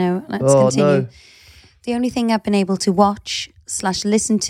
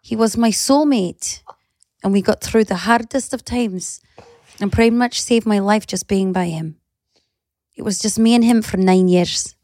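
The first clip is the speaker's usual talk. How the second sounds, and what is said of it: Put-on Scottish accent. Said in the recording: “you're doing it in a Scottish accent.”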